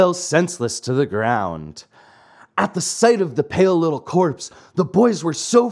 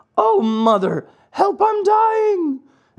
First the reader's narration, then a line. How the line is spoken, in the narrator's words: one of the other boys, who, as pale as a ghost, cried out faintly